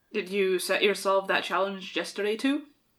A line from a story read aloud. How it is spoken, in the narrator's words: Kane grumbled